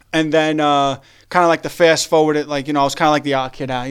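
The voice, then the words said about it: Accent from out there. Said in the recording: “you still sound like you from out there ... I'm happy I never lost the accent”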